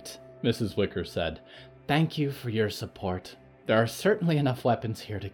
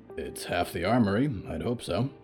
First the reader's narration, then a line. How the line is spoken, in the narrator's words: Hector grunted